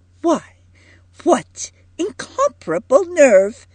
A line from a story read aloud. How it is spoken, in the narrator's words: exclaimed Edith